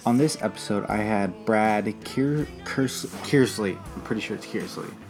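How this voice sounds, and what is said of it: Quiet, subdued speaking voice. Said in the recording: “It is pretty late. That's why I'm not talking too loud.”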